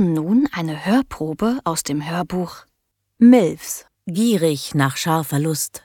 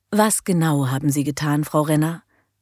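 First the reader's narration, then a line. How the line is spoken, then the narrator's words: Gentle question. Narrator (German): fragte sanft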